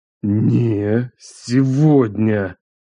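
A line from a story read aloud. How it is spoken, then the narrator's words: Hissed through teeth. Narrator (Russian): Прошипел он через зубы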